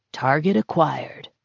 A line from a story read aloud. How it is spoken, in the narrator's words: Marcus murmured